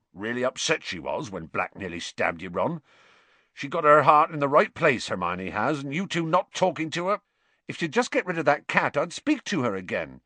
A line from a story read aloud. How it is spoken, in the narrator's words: Ron said angrily